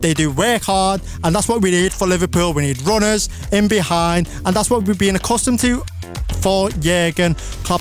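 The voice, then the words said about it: Scouse accent. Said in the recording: “my Scouse accent ... The Scouse accent is top tier”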